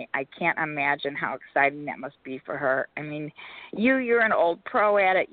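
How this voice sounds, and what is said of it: Hoarse, strained, nearly lost voice. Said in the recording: “my voice is gone tonight, so it's really hard for me to speak”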